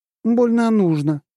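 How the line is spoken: Scornful snort. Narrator (Russian): фыркнула она

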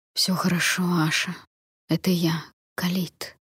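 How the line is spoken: Whisper. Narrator (Russian): прошептал знакомый голос

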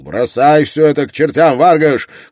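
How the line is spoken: Shout. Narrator (Russian): крикнул Строн

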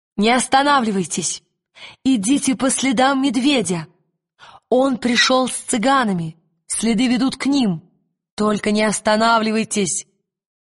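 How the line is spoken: Shouting to everyone. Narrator (Russian): крикнула всем

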